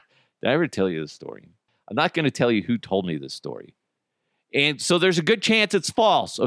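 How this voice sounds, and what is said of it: Usual voice. Nothing is said of it.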